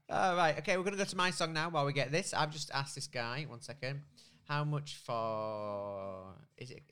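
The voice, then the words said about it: British accent. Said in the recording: “I love your accent. It makes it sound like it's Earl Grey. ... Get me some tea, love.”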